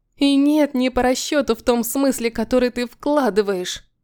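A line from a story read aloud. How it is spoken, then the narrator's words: Sobbing outburst. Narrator (Russian): Вырывается с рыданием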